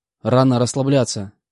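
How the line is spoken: Snorted. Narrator (Russian): фыркнул

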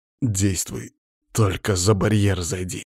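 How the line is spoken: Through gritted teeth. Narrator (Russian): ответил я сквозь зубы

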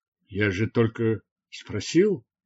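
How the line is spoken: Muttered with pained smile. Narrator (Russian): пробормотал он, болезненно улыбаясь

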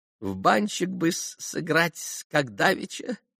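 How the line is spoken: Sudden giggle. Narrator (Russian): хихикнул вдруг Максимов

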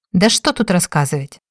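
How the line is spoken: Irritated blurt. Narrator (Russian): раздраженно выпалила женщина

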